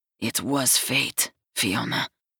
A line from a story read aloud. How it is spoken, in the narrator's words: growls